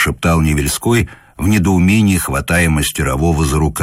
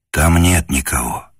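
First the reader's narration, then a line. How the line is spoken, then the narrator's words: Whispered reply. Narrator (Russian): таким же шепотом ответил Скорняк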